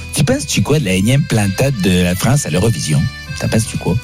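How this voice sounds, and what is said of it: Quebec French accent. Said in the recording (French): “je vais te poser des questions avec l'accent québécois”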